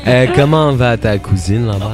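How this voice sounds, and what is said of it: Slow put-on Swiss French accent. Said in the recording (French): “Pourquoi tu parles lentement comme un Suisse? ... vous êtes en train de faire des accents”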